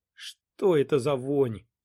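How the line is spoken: Grumbling. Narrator (Russian): проворчал Сайтримба

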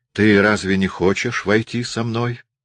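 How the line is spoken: Plain. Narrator (Russian): сказал Хиллери

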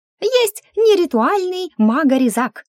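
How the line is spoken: Squeaky. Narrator (Russian): пискнул братец

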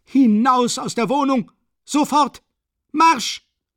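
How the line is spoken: Repeated screaming. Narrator (German): Schreiend rief immer wieder

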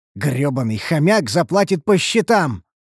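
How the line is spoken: Angry growl. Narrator (Russian): рыкнул я злобно

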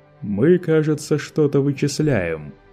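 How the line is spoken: Mocking question. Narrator (Russian): насмешливо поинтересовался Лето

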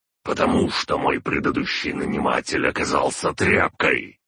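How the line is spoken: Barked. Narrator (Russian): рявкнул он

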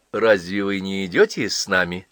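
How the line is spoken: Plain. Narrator (Russian): спросила Нифонтова Джона

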